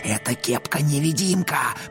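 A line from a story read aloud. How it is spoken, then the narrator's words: Hissing. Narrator (Russian): прошипел он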